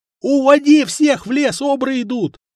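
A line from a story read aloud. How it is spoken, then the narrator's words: Boy yelling. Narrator (Russian): Заорал паренек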